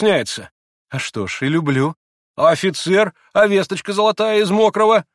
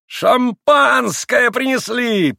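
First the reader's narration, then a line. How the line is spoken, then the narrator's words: Shout. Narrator (Russian): прокричал Ракитин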